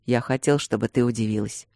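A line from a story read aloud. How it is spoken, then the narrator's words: Quiet. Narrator (Russian): ответил тихо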